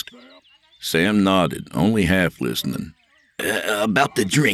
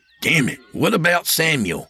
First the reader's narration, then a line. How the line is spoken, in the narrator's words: Sam snapped